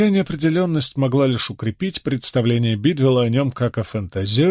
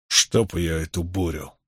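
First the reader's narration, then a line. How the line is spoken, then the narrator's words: Grumbled. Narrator (Russian): проворчал Бидвелл после очередного раската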